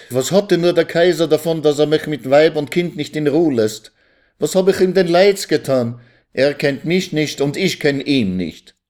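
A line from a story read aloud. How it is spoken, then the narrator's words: Calling out. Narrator (German): rief Jaikew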